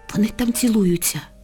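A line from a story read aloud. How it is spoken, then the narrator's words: Soft whisper. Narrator (Ukrainian): тихо шепнула вона Лялі на вухо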